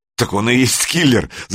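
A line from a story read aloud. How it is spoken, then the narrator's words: Laughing. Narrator (Russian): засмеялся Санек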